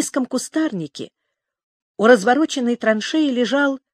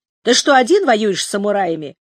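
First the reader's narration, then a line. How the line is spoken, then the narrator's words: Angry speech. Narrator (Russian): зло проговорил Серкибай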